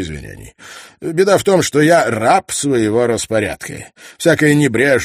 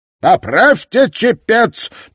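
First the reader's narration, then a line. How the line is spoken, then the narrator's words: Shouting captain. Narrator (Russian): прокричал ей капитан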